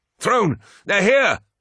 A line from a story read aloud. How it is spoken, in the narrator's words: shouted Cedere